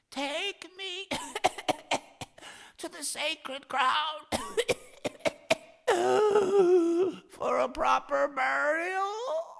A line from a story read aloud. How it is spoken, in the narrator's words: Ossein fairly croaked